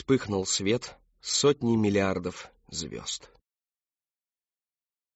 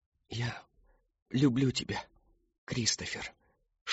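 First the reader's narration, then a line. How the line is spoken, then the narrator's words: Whisper. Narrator (Russian): шепнула она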